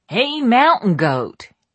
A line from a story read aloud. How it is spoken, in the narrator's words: he shouted